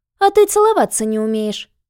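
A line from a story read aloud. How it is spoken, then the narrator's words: Loud laughter. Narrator (Russian): захохотала Нюся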